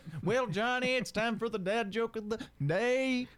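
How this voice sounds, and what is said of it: Put-on Southern accent. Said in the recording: “If ... would do a Southern accent more”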